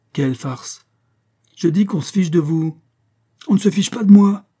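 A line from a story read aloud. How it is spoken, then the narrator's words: Exclaimed. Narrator (French): s'écria Pécuchet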